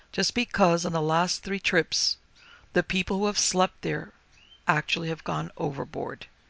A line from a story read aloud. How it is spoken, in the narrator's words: he answered gravely